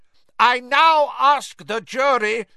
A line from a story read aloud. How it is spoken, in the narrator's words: shouted Mr